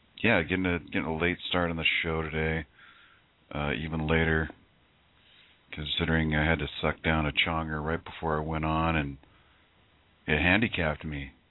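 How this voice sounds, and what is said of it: Raspy, hesitant voice. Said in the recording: “Can you hear the raspiness in my voice? The hesitation in my speech?”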